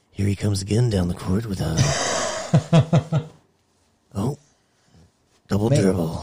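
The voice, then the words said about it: Sports announcer radio voice. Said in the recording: “It's my radio voice. ... like the sports announcer.”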